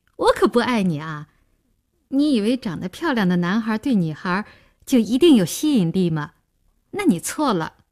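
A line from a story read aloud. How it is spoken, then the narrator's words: Laughing. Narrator (Chinese): 林兴听了笑道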